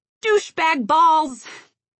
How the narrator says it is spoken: violently shouting

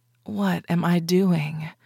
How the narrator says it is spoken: I murmured

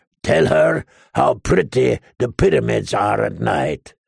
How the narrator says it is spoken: the slaver growled

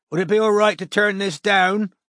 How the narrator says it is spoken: Strike shouted over the TV

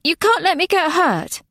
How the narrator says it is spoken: lied Nona, but added urgently

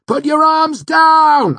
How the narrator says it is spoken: I shouted as I ran up to her

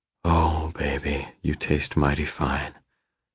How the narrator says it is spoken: I whisper

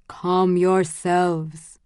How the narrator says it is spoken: he said slowly

